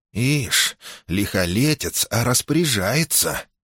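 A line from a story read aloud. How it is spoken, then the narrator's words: Guard's whisper from behind. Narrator (Russian): услышал он за спиной шепот привратного стража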